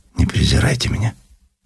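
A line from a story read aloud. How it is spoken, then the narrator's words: Lowered, quiet voice. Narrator (Russian): понизив голос, тихо добавила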